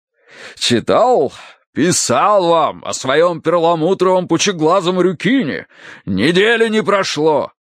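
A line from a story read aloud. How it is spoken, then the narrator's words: Deep bass voice. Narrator (Russian): пробасил полковник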